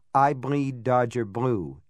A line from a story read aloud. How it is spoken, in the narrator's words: it said